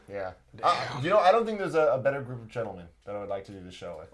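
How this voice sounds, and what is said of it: Subdued, intelligent-sounding radio voice. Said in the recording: “I love your NPR voice ... more subdued. You sound very intelligent.”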